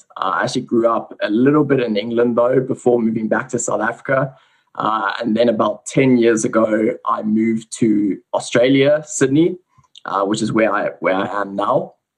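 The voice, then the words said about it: Slight South African accent. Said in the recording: “You can probably hear I have a little bit of a South African accent.”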